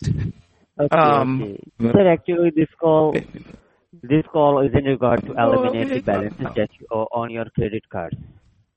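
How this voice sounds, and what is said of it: Hard-to-understand accent. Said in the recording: “I need you to speak slower. I can't understand your accent.”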